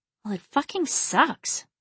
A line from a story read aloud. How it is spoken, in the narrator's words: she muttered